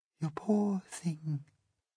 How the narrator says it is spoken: she murmured

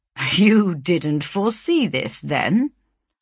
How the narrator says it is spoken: answered Grimsby with a guttural chuckle

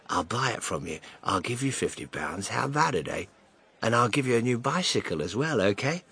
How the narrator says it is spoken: the man whispered

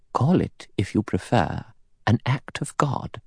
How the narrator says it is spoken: Emily Brent said quietly

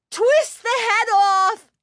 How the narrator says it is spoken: she cried

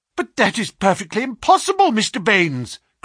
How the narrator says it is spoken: cried our client

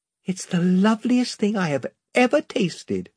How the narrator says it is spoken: she said, with a kind of gasp

